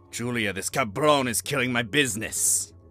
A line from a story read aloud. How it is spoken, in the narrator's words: Carlos growled